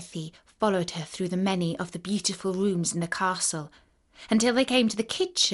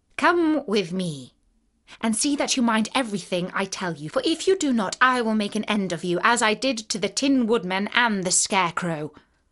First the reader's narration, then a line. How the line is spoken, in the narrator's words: she said to Dorothy, harshly and severely